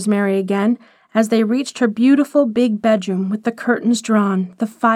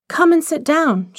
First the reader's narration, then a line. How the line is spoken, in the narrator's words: she cried